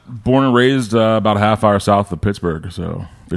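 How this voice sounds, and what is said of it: Deep, smooth radio-style voice. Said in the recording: “You get a dope ass voice ... You've got a radio voice.”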